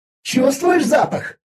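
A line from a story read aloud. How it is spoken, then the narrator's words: Excited shout. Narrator (Russian): азартно закричала Виза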